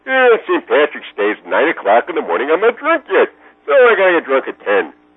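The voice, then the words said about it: Cartoon character impression, Homer Simpson voice. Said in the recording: “Homer's voice is basically like this”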